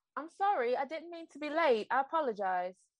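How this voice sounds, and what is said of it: Imitated British accent. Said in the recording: “That was my impression of a British accent.”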